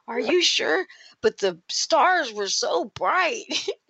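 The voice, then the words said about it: Close imitation of a man's voice. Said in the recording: “the way you're making them sound exactly like him... You're a pretty good impersonation of him.”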